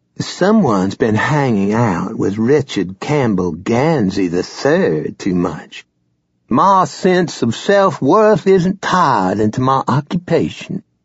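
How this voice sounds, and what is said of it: Exaggerated snotty Old South accent. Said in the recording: “She traded her Henrietta accent for a gloriously snotty version of Old South. ... the most exaggerated rendition of Gansey's accent possible. She sounded like a drunk Robert E. Lee.”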